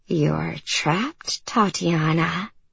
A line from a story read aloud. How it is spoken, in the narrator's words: She giggled and whispered